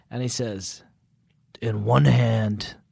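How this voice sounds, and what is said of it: Bad imitation of a menacing movie villain. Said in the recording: “Why does he sound like Jigsaw?... I just did a bad impression.”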